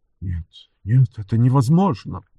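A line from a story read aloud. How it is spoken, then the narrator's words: Continued muttering. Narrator (Russian): продолжал бормотать барон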